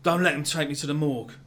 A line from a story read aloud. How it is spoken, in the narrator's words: the man says